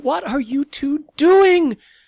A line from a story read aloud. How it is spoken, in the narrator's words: From upstairs, Mom's voice screamed